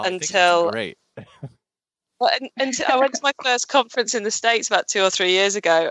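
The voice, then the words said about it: Appealing foreign accent. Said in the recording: “your awesome accent”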